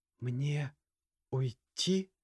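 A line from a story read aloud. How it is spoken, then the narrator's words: Quiet question. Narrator (Russian): тихо спросила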